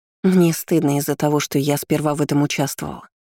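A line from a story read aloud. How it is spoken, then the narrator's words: Repentant tone. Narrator (Russian): покаянным тоном произнесла Марлин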